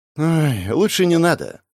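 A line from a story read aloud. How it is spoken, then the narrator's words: Rueful sigh. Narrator (Russian): вздохнул я, поймав не самое приятное воспоминание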